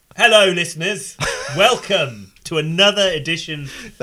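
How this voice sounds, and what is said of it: Announcer-style radio voice. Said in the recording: “That's your radio voice.”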